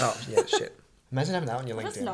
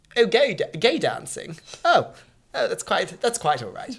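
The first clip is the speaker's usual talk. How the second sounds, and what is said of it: Pompous put-on British accent. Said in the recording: “I've suddenly developed a British accent. That sounds really pompous.”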